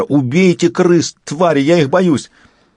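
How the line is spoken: Yelled. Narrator (Russian): Лейтенант заорал на Итагара

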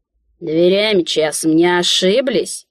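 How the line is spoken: Disrespectful grumble. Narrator (Russian): Без малейшего намека на почтение пробурчал он

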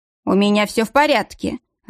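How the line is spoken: Irritated. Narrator (Russian): раздраженно проговорил немец

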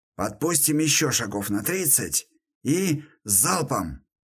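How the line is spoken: Whisper. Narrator (Russian): прошептал я

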